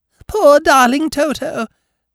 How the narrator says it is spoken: cried the visitor

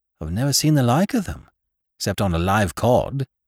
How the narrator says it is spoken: said Captain Gannington, in an extremely puzzled voice

